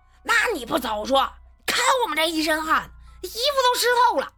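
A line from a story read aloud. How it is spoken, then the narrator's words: Roaring. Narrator (Chinese): 熊万义……吼道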